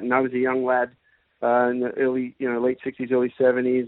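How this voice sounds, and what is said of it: Accent with a hint of abroad. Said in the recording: “There's a hint in your accent ... that you've been away for a while”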